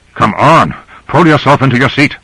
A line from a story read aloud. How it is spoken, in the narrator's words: Grant said urgently